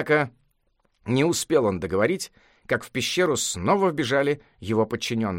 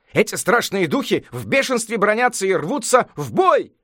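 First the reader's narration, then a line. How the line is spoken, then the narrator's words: Group shouting. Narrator (Russian): кричали они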